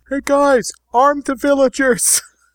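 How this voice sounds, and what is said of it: Yelling. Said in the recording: “I'm yelling”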